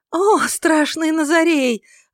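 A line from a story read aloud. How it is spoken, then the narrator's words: Exclaimed. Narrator (Russian): воскликнула она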